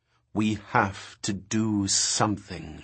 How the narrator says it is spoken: she said, speaking slowly as if he were a child

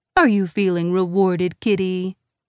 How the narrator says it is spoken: Schrodinger purrs

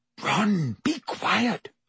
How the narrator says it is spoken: Hermione whispered urgently

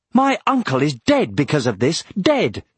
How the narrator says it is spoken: exclaimed Aragorn

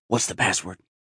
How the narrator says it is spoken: he whispered

